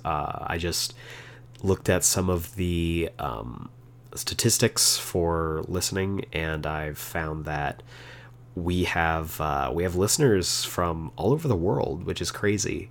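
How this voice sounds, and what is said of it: Unusually deep, rough baritone voice. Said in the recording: “it's been kind of rough dealing with this this baritone voice in your ears ... when my voice sounds better”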